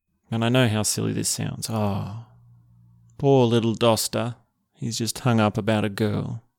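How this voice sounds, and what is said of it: Somber, subdued tone. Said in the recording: “I'm talking in such a somber tone of voice right now”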